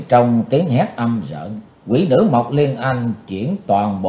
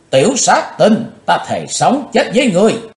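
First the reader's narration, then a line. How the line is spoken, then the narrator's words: Loud scream. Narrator (Vietnamese): Ả hét to lên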